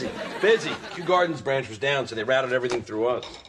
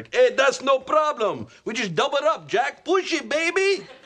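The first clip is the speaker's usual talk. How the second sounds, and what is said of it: Imitates a coworker's accented voice. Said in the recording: “Is that the way he talks? ... Yeah, he's got that accent, you know?”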